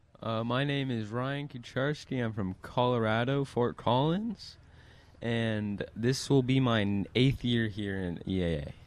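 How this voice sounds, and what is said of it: Mature, deep radio voice. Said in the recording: “radio voice of a 35-year-old ... You do have that radio voice.”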